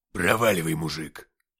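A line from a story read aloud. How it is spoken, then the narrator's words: Barked. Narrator (Russian): рявкнул он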